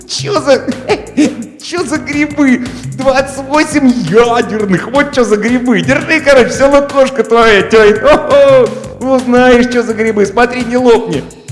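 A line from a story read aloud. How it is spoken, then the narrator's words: Giggling, savoring. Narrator (Russian): Маруська снова хихикнула и повторила, смакуя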